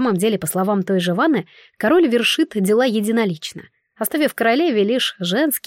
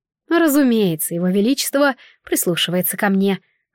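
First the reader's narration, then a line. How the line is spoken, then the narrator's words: Sighing queen. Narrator (Russian): вздохнула королева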